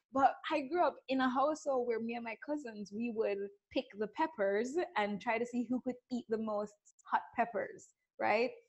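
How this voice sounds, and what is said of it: Slight Caribbean Jamaican accent. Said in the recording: “You may hear a little spicy Caribbean accent going on here because I'm from, ... I grew up in Jamaica”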